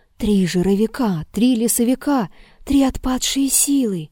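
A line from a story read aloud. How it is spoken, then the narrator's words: Terrified, muffled moaning whisper. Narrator (Russian): томимый ужасом, Егорушка стонал и шептал глухим голосом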